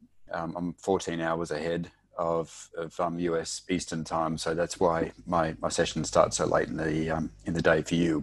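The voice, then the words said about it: Noticeable non-American accent. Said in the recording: “my funny accent”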